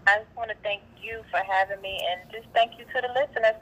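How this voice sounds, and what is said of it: North Carolina country accent. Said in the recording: “country girl from North Carolina ... that accent is definitely there”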